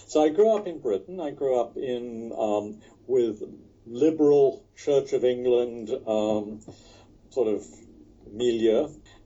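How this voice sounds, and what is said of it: Faint British accent. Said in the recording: “Many people think I've in Britain think I've completely lost any trace of a British accent, but everybody in the United States knows exactly within a minute of my speaking where I originally came from.”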